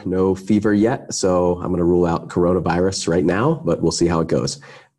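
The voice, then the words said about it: Unwell, off-sounding voice. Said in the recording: “sorry about my voice. I'm a little bit under the weather.”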